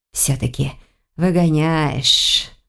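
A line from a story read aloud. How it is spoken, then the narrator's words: Whistling exhale. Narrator (Russian): со свистом выдохнул Змейс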